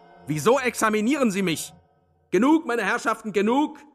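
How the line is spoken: Commanding shout. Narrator (German): rief allmächtig Sverkov

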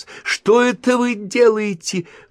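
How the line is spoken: Shrill squeal. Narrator (Russian): взвизгнула

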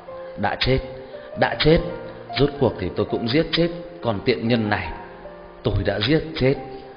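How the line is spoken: Murmured whisper. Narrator (Vietnamese): bà ta chỉ đứng đó thì thào nói nhỏ

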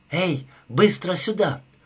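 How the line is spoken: Agitated whisper. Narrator (Russian): произнесла она взволнованным шепотом

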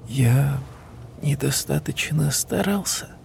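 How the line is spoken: Whisper. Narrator (Russian): прошептал

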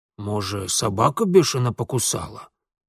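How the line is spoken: Loud whisper, asking. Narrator (Russian): громким шепотом поинтересовался урядник

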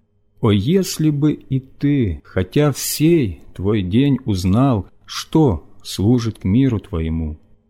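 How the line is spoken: Loud weeping cry. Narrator (Russian): горько плача и громко взывая

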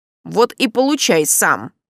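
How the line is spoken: Grumbling. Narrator (Russian): пробурчал Рауль

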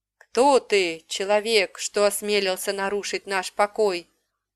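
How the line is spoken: Low rumbling dragon voice. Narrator (Russian): глухо пророкотал каменный дракон

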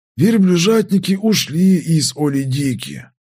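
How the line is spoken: Weary reply. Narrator (Russian): как-то устало ответил Лиакай

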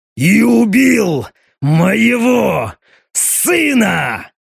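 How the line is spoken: Roaring. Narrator (Russian): граф проревел

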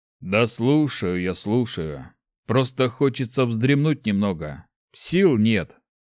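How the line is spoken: Grumbling. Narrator (Russian): проворчал Марв

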